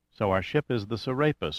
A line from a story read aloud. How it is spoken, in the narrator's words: murmured Lily pensively